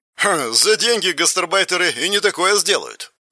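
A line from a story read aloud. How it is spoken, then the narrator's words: Scoffing snort. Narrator (Russian): хмыкнул он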